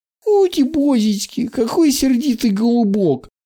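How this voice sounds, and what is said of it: Mocking, teasing imitation voice. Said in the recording (Russian): “Передразнил их главарь”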